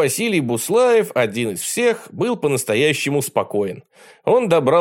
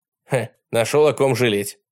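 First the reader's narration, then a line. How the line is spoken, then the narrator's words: Scoffing snort. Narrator (Russian): хмыкнул Жюль Верн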